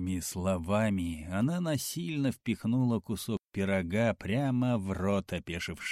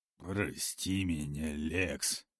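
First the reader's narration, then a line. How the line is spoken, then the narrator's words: Mumbled. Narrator (Russian): Наконец пробормотал он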